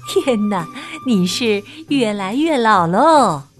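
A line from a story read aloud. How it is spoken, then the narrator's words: Laughing. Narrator (Chinese): 安吉丽娜笑着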